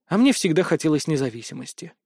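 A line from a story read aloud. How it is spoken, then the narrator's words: Said with a sigh. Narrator (Russian): вздохнув, произнесла Юлия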